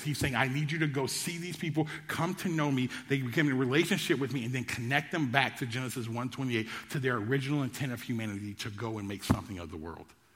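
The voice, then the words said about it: Speaking very fast. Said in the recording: “I know I said that really fast”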